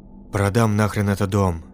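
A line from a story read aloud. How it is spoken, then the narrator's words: Growled through gritted teeth. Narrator (Russian): сквозь зубы прорычал он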